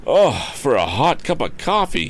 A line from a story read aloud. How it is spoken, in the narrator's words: he exclaimed